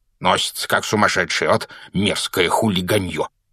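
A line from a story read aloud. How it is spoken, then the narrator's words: Irritated grumble. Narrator (Russian): проворчал он, когда их обогнал мопед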